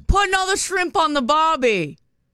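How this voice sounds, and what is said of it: Put-on Australian accent. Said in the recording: “Pretty good. Nice Austrian accent. I like that.”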